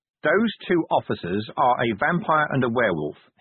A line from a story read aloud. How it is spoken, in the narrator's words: he said, still in the same level voice